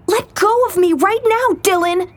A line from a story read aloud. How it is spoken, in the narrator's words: the girl spat back at him